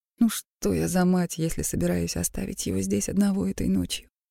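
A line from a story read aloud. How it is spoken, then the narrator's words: Sighing. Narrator (Russian): Я вздохнула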